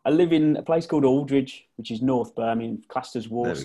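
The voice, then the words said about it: Brummie (Birmingham) English accent. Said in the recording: “Western twang ... The dulcet Brummie tones.”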